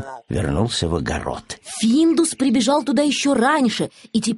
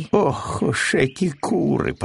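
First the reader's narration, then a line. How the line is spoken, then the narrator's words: Grumbled. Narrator (Russian): проворчал Пэтсон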